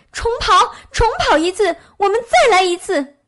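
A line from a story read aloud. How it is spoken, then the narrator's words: Angry shout. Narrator (Chinese): 这下野兔可气坏了，叫道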